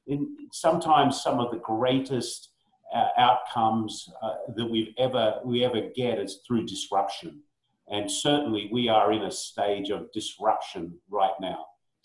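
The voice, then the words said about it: Australian accent. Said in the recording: “You still sound Australian to me”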